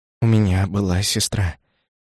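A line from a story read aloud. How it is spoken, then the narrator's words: Quiet, slow, distinct. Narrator (Russian): тихо, медленно и отчетливо говорил Наоки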